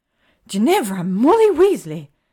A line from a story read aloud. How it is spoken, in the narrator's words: Hermione gasps